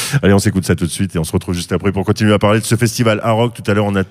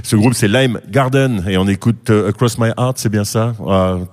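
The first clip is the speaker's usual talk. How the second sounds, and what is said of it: Put-on English pronunciation. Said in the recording (French): “T'as vu mon accent, il est beau”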